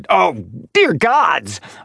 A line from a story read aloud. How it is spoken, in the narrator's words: Archie snapped